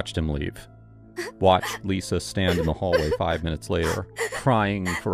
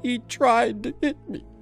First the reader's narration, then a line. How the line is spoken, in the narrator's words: she sobbed